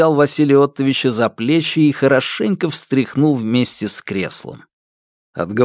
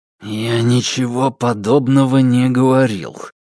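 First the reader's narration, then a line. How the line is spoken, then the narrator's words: Through gritted teeth. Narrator (Russian): процедил сквозь зубы Фальк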